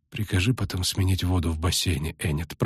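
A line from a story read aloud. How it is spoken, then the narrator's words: Muttering. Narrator (Russian): пробормотала она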